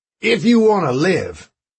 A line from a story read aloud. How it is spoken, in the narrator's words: Harrigan shouted after Fernando